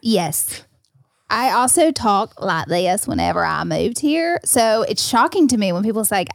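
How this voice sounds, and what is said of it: Southern US country accent. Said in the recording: “I can hear your country accent ... the South ... The South has arrived ... it's crystal clear for me”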